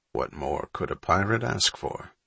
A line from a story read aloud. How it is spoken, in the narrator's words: Needleman murmured